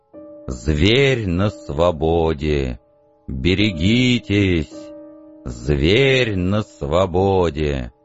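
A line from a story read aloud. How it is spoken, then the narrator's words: Sepulchral disembodied wailing voice. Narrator (Russian): гробовой бестелесный голос вопил в пространстве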